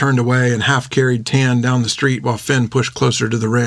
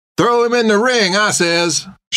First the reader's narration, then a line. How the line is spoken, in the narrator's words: shouted a man from the crowd